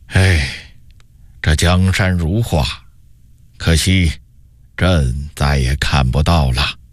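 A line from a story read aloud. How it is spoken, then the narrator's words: Sighing emperor. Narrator (Chinese): 永乐帝忽然叹了口气说道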